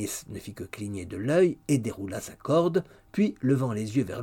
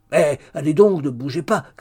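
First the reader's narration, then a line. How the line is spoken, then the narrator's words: Impatient shout. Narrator (French): cria avec plus d'impatience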